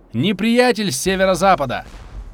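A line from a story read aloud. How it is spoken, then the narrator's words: Lookout's shout. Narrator (Russian): вперед смотрящий на Марсе закричал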